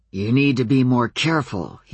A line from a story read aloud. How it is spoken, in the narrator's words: he growled